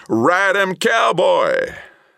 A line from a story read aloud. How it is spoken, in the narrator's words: a skeleton with red hair, the jaws open and yelling